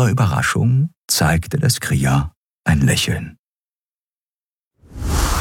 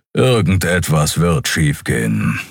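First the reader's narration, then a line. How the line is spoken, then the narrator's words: Growl. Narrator (German): knurrte Keru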